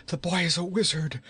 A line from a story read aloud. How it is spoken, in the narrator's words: gasped